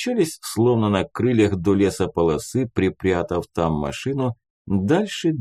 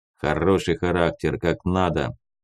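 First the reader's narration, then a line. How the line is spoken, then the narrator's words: Warrant officer grumbling. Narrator (Russian): буркнул прапор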